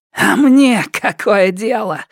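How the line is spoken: Hoarse voice. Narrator (Russian): голос Тан Сяо Мэй стал хриплым

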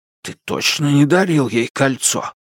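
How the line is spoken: Whisper. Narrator (Russian): учитель Джоу прошептал

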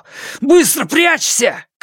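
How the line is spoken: Shouting. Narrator (Russian): крикнул он ей

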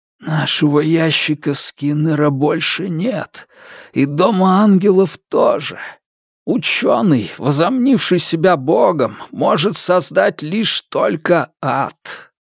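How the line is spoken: Whisper in ear. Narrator (Russian): прошептал тому на ухо

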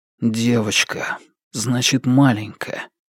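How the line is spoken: Robotic mutter. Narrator (Russian): Словно робот, Фан Му пробормотал

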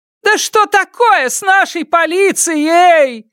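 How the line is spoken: Woman yelling. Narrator (Russian): заорала одна из женщин

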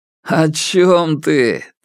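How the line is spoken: Laughing. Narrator (Russian): Тэн Сяо рассмеялся

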